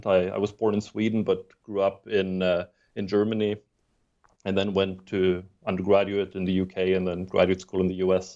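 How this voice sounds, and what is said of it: Muddled non-native English accent. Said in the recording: “I'm not a native English speaker ... I have a, have a funny muddled accent ... I have a muddled set of accents all piled on top of each other”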